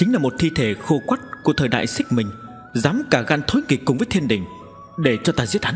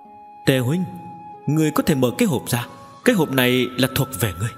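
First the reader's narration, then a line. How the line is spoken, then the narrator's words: Laughing, trembling. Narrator (Vietnamese): run rẩy ném ra cho Tề Kiều Nghi, cười nói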